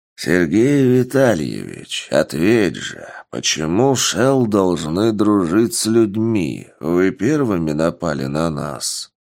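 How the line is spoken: Calm bear voice. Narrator (Russian): спокойным голосом заявил медведь

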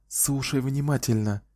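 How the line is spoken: Barely audible whisper. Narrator (Russian): еле слышно прошептала

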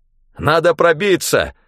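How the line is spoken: Shouting. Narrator (Russian): выкрикнул я

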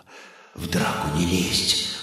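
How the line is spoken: Quick whisper. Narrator (Russian): быстро прошептал Стас

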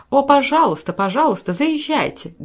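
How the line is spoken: Eager exclamation. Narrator (Russian): горячо воскликнула миссис Брэндон

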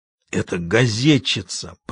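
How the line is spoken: Grumbling. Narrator (Russian): пробурчал Большой Джим

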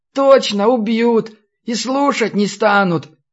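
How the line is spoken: Sobbing young monk. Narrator (Russian): всхлипнул монашек

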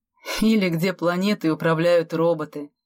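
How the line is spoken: Laughing. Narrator (Russian): Засмеялся Дима

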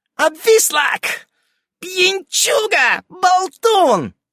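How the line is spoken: Shrill yelling. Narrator (Russian): орало это визгливым голосом

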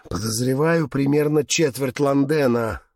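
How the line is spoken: Gloomy remark. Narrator (Russian): мрачно заметил Габриэл

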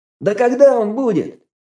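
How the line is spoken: Shout from crowd. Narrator (Russian): выкрикнул кто-то из толпы

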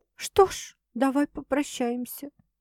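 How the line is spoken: Barely audible, fearful. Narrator (Russian): еле слышно произношу я, боясь повернуться к Максу лицом и посмотреть в его глаза

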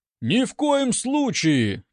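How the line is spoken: Ragged crowd shouting. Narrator (Russian): нестройно закричали гости

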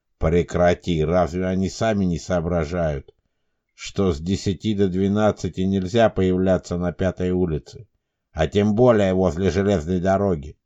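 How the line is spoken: Displeased man's voice. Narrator (Russian): Недовольным голосом отреагировал мужчина

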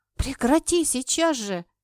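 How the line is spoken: Pleading. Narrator (Russian): взмолилась я

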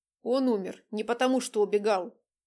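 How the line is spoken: Through gritted teeth. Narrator (Russian): процедил следователь

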